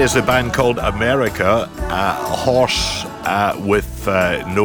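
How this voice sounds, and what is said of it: Usual voice. Nothing is said of it.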